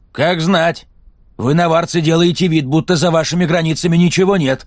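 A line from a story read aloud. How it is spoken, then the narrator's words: Snapped. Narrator (Russian): огрызнулся мужчина-ездок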